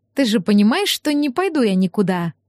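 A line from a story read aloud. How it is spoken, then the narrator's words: Affectionate question. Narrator (Russian): Ласково осведомилась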